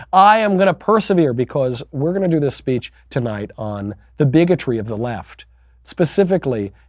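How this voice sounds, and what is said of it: Hoarse, strained voice. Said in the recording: “losing my voice, despite the sickness”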